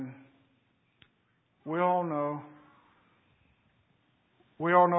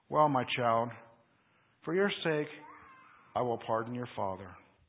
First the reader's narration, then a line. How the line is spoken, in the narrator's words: After a momentary struggle of feeling, Napoleon said